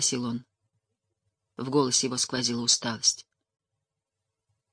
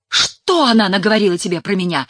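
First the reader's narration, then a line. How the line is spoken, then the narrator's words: Yelling. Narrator (Russian): заорала Тереза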